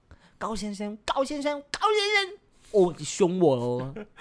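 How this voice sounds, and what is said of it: Imitated mainland Chinese accent. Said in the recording (Chinese): “操着大陆的口音，高先生 ... 操着那个晶片儿，高先生高先生高先生这样子”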